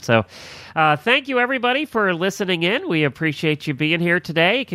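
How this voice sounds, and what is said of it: Strained, failing voice. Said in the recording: “My voice is giving out here.”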